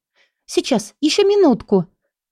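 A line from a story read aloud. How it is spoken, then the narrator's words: Exclaiming. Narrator (Russian): воскликнула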